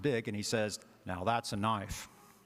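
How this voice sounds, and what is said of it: Put-on Australian accent. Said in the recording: “It's my Aussie accent, which you'll hear only during that quote”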